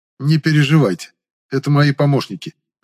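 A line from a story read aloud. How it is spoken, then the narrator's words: Reassuring. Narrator (Russian): успокоил я резко занервничавших орденцев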